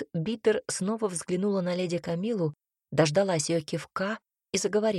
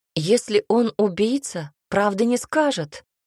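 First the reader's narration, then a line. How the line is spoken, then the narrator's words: Exclaimed. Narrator (Russian): воскликнула Полина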